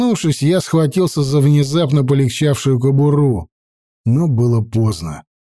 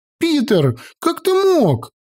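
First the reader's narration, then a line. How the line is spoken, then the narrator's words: Indignant girl shouting. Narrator (Russian): Возмущенно крикнула девчонка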